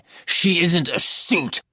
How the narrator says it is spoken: I snarled

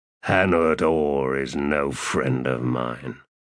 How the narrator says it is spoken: he said in a growl

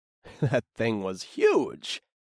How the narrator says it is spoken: I chuckled

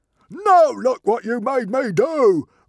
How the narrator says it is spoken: roared Norbert the Nutjob

